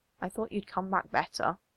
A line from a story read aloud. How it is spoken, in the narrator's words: says quietly, there's something almost like grief in the older man's face